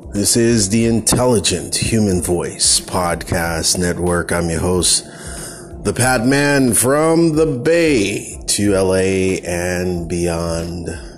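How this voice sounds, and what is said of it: Tired, groggy morning voice. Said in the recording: “I'm up too early on a Sunday morning, man. ... Can you hear it in my voice? Can you hear it?”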